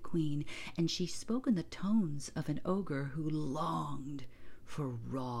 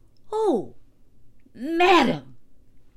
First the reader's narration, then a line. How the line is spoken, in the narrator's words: exclaimed the steward